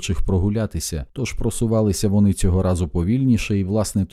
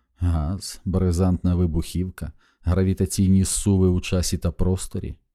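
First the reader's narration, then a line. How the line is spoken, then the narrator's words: Plain. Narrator (Ukrainian): сказала Маккласкі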